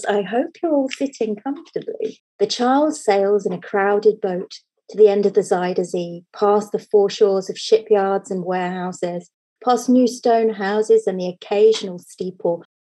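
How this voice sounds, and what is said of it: Storytelling voice. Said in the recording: “in my best storytelling voice.”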